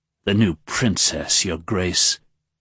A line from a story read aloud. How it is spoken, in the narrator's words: Dilaf hissed, his voice suddenly hateful